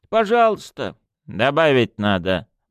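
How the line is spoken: Gruff mutter. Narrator (Russian): буркнула буфетчица

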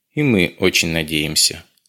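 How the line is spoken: Warm, smiling agreement. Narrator (Russian): ласково улыбнулся Нафиси, соглашаясь с гостем

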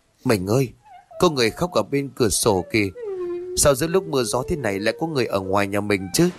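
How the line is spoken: Soft frightened cry, trembling. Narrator (Vietnamese): Hà rú lên khè khẽ, toàn thân run bần bật, mà nói

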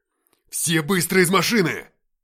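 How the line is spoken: Shouting. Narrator (Russian): закричал Игнат

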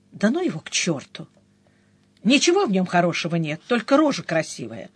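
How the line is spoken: Quiet speech. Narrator (Russian): Денис … тихо проговорил

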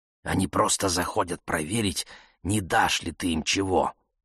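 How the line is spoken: Mother's cautious whisper. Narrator (Russian): сказала мама шепотом, словно уже разошедшиеся по домам соседи могли услышать

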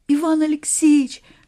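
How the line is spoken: Cry, then weeping. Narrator (Russian): вскрикнула Глашка, заплакала

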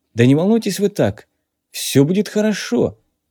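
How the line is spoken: Uncertain. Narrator (Russian): неуверенно прибавил

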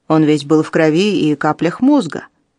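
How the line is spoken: Deliberately shocking explanation. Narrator (Russian): объяснил полицейский, намеренно пытаясь потрясти

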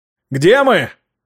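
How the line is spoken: Shouting over howling wind. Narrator (Russian): прокричал я, стараясь перекрыть завывание ветра

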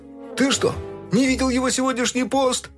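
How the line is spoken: Shouting. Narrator (Russian): крикнул кто-то опешившему доку

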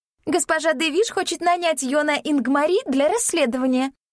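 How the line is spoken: High ringing voice. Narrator (Russian): сообщила Кайя высоким звонким голосом

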